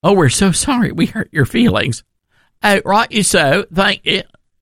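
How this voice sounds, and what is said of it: Put-on Cockney accent. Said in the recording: “that's a Cockney accent, I guess.”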